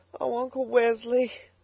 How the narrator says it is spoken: sobbed the girl

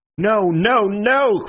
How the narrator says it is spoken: cried Syme in a kind of frenzy

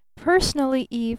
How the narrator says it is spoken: he said

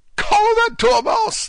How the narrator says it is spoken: the queen shrieked out

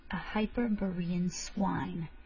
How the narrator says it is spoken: he hissed forcibly

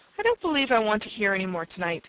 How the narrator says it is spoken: said Timothy Turtle hastily

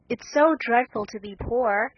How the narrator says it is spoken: sighed Meg

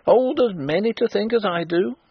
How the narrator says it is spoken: cried the old woman stubbornly

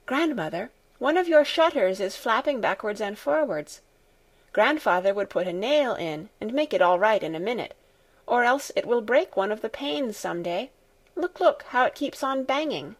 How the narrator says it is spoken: All of a sudden she exclaimed

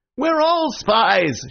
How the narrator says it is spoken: shouted Dr

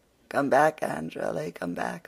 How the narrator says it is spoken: laughed Philippa

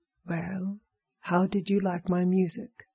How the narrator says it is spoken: she asked

